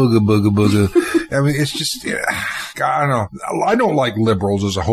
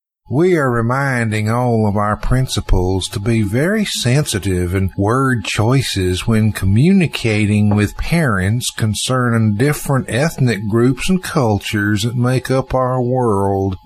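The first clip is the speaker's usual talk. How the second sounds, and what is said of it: Mocking Southern accent. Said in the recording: “I can almost hear her speaking. It's a defilement of the Southern accent.”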